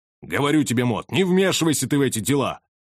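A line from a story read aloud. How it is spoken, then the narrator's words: Irritated father's shout. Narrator (Russian): раздраженно крикнул отец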